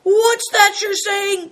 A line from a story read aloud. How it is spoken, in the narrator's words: cried Greencoat